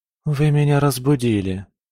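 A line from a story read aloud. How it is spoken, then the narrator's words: Feigned sleepy voice. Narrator (Russian): она постаралась ответить сонным голосом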